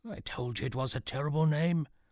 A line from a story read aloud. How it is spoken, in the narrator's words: whispered Archimedes to Sean